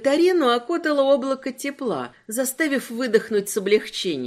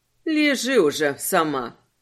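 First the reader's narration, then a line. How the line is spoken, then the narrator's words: Grumbled. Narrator (Russian): проворчала Джио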